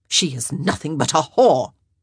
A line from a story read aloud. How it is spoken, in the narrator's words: Araminta hissed